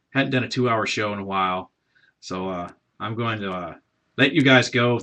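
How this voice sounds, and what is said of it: Worn-out, strained voice. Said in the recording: “my voice is shot”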